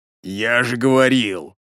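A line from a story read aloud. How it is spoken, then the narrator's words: Hoarse wheeze. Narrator (Russian): прохрипел бомж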